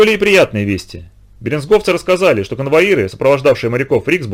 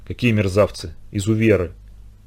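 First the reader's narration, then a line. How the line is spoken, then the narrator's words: Overwhelmed whisper. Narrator (Russian): Иногда кто-нибудь не выдерживал и шептал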